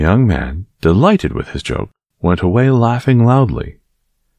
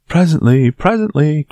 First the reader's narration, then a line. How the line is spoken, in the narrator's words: cried